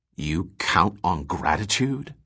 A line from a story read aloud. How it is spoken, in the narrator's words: asked Gorov coldly